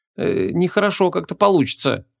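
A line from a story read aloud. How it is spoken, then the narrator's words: Uncertain mumble. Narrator (Russian): неуверенно промямлила Ванесса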